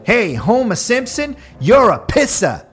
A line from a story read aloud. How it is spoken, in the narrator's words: a passing driver yelled out the window